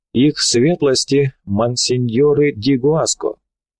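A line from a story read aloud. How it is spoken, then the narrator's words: Loud solemn announcement. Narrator (Russian): громкий голос торжественно возвестил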